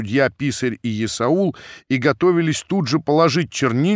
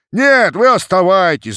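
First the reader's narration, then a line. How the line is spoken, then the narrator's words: Crowd shouting. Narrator (Russian): закричали из толпы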